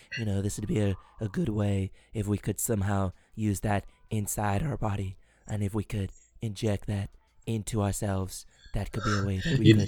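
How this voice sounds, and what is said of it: Well-practiced impression. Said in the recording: “been practicing his impression there. ... It was very good. It was very good. Good enough for me to believe you practiced that.”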